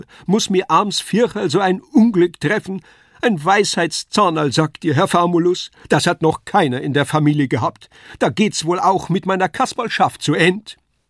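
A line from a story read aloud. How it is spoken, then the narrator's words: Wailing. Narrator (German): jammerte Kasperl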